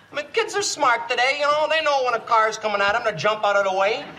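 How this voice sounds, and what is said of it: Comic character voice with accent. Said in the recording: “that character, Irwin Mainway ... Love his accent.”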